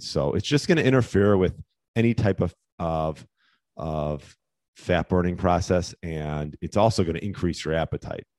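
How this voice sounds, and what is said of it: Hoarse, fading voice. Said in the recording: “I'm like losing my voice”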